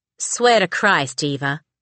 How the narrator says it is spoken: she muttered on an exhale

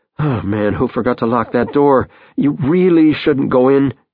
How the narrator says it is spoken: he pleads

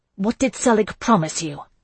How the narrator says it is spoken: asked, making my voice hard

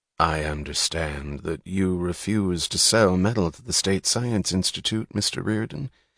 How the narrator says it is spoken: he said in a soft, confidential tone of voice

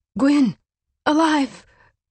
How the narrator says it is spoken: her friend groaned

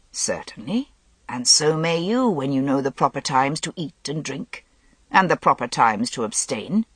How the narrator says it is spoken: said Vivien curtly

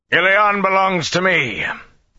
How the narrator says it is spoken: The voice boomed in the air from every direction

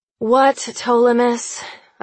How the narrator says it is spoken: I sigh

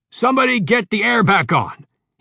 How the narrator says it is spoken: he shouted

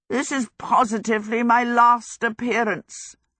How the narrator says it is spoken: Howl croaked

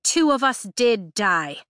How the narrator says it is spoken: Imogen snaps

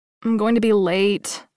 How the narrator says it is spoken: said, groaning

